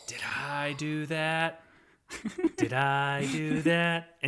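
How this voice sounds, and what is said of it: Imitates nerdy sitcom character's voice. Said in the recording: “Urkel's did I do that ... doing that impression”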